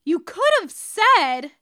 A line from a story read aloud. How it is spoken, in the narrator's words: James yells